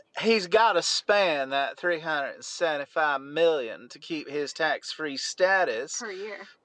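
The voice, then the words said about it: Faux Southern Belle accent. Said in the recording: “in a faux Southern Belle accent ... Why don't you read this quote part in your Southern Belle accent?”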